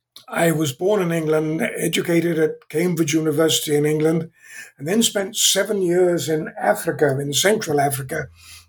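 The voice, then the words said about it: Slight British accent. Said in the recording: “I still have somewhat of a British accent, although I've been in California for 55 years.”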